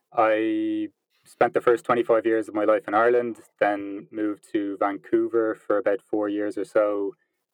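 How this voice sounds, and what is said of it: Irish accent. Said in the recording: “as you can probably tell by the accent, I'm from Ireland”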